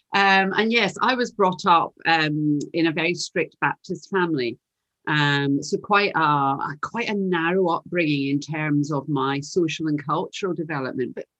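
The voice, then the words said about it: Glaswegian Scottish accent. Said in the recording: “You can probably tell from my accent. You can tell I'm from Glasgow”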